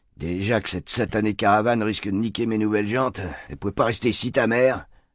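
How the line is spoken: Grumbling. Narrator (French): grogne Alphonse

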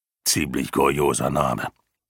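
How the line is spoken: Man growling. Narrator (German): knurrte der Mann

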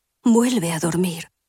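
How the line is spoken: Rustling whisper. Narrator (Spanish): susurran las hojas en el viento

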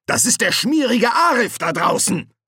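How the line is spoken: Thundering voice. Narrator (German): donnerte Fester

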